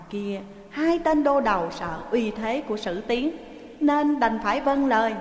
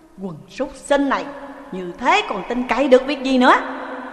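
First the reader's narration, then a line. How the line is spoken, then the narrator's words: Scolding angrily. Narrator (Vietnamese): Sử Tiến bần bần quát mắng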